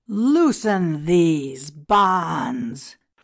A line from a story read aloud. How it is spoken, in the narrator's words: cried Rechmara in fury